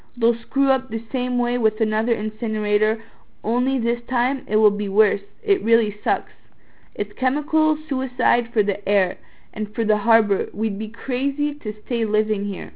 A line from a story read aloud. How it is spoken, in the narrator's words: said